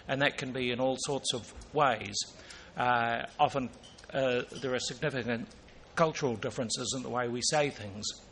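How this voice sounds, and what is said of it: Non-North American English accent. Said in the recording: “I don't have a North American accent”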